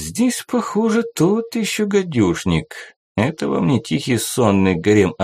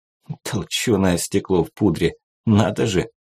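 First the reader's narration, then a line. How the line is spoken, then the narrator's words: Quiet snort. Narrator (Russian): тихо фыркнула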